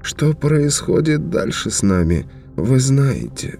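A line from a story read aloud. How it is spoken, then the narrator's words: Sad statement. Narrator (Russian): печально сообщил Зозо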